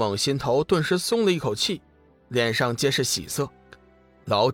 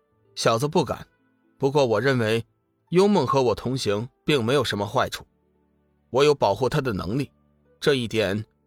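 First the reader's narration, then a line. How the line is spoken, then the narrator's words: Flat, calm. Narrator (Chinese): 龙宇淡淡的说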